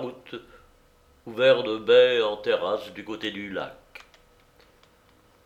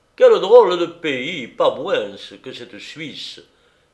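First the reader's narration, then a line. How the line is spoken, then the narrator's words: Exclaimed. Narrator (French): s'écria Tartarin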